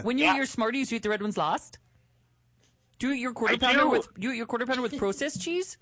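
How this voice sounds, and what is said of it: Put-on Canadian accent, lowered voice. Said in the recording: “How was his accent? ... you also drop your voice when you do it ... You blend right in”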